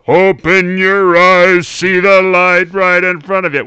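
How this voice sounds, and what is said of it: Booming deep crooning singing voice. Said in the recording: “he has this booming, deep voice, like ... it's almost like crosses at times into Jim Nabors territory ... you sound a little yeah. like Jim Nabors in the impersonation.”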